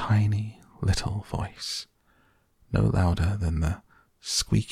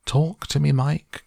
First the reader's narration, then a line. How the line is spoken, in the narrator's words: cried Mrs